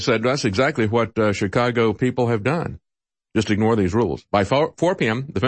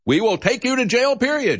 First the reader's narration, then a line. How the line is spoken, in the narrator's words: she yells at people